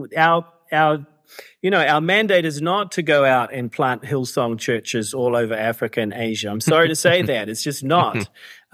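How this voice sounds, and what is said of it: Put-on quasi-Australian accent. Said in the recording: “I say that with a quasi-Australian accent.”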